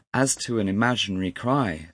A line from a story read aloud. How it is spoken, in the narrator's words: said I